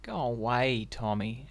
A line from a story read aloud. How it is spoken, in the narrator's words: said Jim feebly